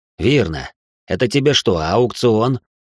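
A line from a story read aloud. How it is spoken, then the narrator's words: Snort. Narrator (Russian): Я фыркнула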